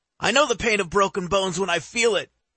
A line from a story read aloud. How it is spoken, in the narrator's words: Slim shouts from behind the crowd